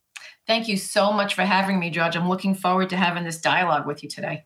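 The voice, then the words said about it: Long Island accent. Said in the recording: “all the way from beautiful Long Island ... I love that accent.”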